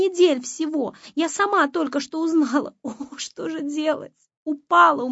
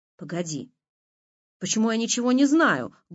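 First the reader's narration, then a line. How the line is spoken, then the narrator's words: Menacing. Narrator (Russian): грозно начала Маня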